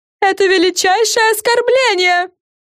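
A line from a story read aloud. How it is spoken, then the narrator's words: Screaming. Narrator (Russian): завопила Френ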